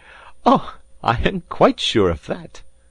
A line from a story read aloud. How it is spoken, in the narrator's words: cried Passepartout, laughing heartily